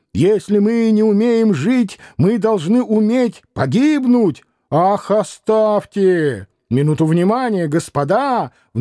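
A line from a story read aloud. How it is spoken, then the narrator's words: Imposing old man's shout. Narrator (Russian): внушительно крикнул благообразный старик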